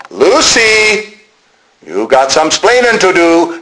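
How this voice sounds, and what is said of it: Attempted Cuban accent. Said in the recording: “That was the sort of a Cuban, that's my attempt at a Cuban accent”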